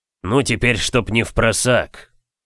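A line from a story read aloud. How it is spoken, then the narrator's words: Muttering. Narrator (Russian): Бормотал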